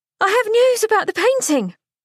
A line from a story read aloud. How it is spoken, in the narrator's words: Unable to keep her exuberance to herself, she yelled out